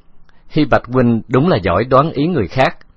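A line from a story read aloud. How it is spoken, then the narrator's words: Laughing. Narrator (Vietnamese): Từ Tử Lăng bật cười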